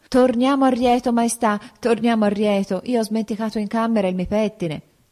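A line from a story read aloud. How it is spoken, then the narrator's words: Exclamation. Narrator (Italian): tutto a un tratto la sposa esclamò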